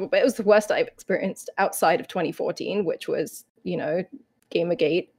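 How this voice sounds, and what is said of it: Emotional voice. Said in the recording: “I'm getting emotional”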